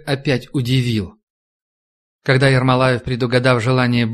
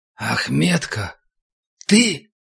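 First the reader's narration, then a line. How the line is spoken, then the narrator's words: Uncertain, smiling tone. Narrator (Russian): Командир неуверенно улыбнулся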